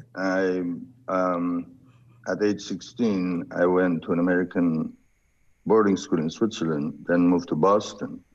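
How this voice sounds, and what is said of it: Slight foreign accent. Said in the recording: “you have a slight accent”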